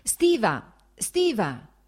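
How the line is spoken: Shouted. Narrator (Italian): gridò il fratello

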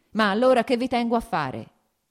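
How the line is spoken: Shouted. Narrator (Italian): gridò

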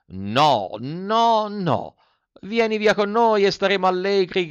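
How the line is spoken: Several voices shouting together. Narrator (Italian): gridarono altre 4 voci di dentro al carro

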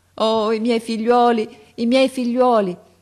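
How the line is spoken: Exclaimed. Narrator (Italian): esclamava

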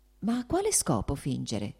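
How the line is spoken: Soft speech. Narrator (Italian): disse piano Varinka

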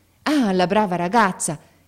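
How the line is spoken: Father exclaiming. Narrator (Italian): esclamò il padre

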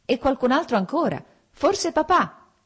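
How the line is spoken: Shouting. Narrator (Italian): gridò Lievin

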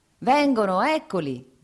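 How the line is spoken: Shout. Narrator (Italian): gridò il contadino

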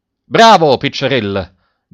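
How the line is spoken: Assistant's shout. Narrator (Italian): gridò l'assistente

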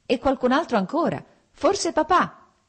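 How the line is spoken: Shouted. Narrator (Italian): gridò Lievin

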